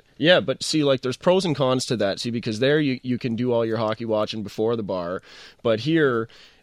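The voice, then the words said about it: Strong regional accent. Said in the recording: “you're Don Cherry ... The accent is kind of hard to shake. It's a close-to-home thing for me, so it always hangs around.”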